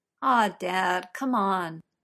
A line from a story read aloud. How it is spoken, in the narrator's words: Arthur groans